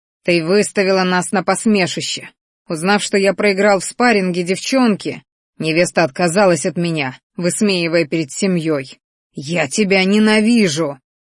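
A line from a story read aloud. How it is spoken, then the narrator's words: Furious growling. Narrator (Russian): рычал один из парочки, чьи зрачки налились кровью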